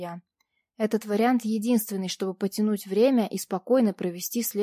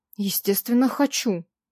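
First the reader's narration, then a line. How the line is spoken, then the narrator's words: Mildly irritated. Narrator (Russian): несколько раздраженно подтвердил он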